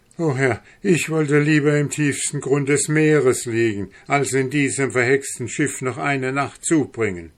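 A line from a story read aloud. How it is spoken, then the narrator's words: Exclaiming. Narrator (German): rief aus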